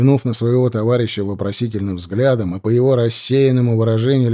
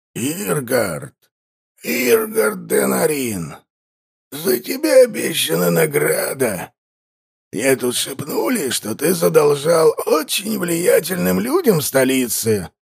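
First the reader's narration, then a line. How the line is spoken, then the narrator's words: Hoarse voice. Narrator (Russian): Озвучил хриплый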